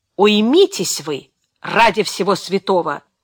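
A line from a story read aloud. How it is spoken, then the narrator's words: Menacing hiss. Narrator (Russian): угрожающе прошипел рядом Тед Рилли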